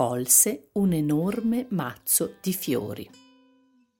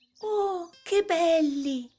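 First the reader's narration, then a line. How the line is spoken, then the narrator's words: Exclaiming. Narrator (Italian): esclamò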